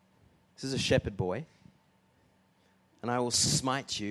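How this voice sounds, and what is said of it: Usual voice. Nothing is said of it.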